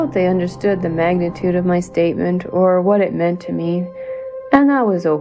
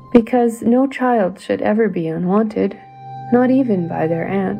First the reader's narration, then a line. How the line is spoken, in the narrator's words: I said, my voice beginning to crack